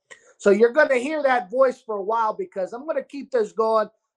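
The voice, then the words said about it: New York Sicilian-style accent. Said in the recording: “my beautiful New York, a Sicilian dialect, which I'm not from New York, but it might be my upbringing with Sicilian people”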